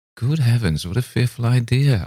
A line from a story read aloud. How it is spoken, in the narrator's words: I exclaimed, half laughing